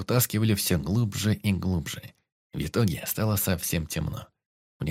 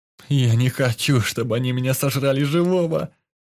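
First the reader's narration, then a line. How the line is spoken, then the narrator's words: Moan. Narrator (Russian): Простонал Юсуф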